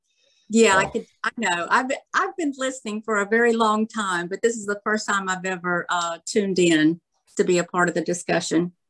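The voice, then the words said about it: Regional American accent. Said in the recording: “I live in Mobile, Alabama. ... I love that accent.”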